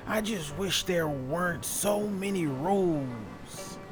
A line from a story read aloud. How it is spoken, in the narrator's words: he grumbled